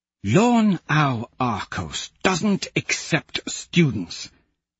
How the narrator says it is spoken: Cassius hisses

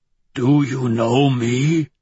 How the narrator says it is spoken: Ragnar rasps, a tentative smile on quivering lips

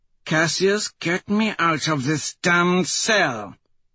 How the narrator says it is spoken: Antonia hisses

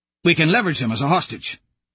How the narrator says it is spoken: Fichtner says quickly

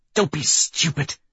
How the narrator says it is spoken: she snarls, dragging me to the ground with the last of her strength

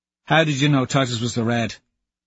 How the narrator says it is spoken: Harmony asks quickly

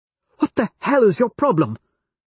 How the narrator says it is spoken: She snaps at him

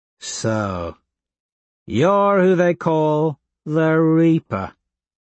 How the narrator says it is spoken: Tactus drawls

